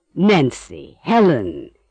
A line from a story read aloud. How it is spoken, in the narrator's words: Emily's aunt exclaimed, stopping short